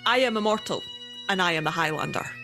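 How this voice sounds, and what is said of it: Forced Scottish accent. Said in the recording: “that felt forced ... Scottish accent versus Scottish accent, you've kicked the shit out of Christopher Lambert.”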